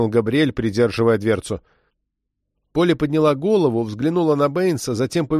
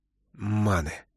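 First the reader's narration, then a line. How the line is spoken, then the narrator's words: Growl through clenched teeth. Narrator (Russian): стиснув зубы, прорычал Бэйнс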